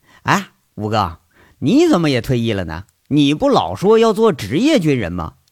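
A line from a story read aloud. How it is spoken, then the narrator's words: Hearty laughing question. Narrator (Chinese): 杨伟也是爽朗的笑起来，一转眼又问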